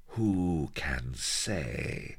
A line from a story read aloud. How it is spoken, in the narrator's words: murmured Sheba evilly